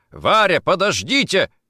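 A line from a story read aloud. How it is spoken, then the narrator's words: Shouted. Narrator (Russian): крикнул Никитин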